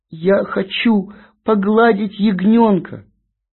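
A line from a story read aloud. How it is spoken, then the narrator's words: Tearful, sobbing. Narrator (Russian): расплакалась, и проговорила с трудом, всхлипывая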